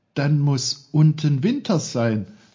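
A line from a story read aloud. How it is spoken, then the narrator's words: Excited call. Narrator (German): rief er ganz aufgeregt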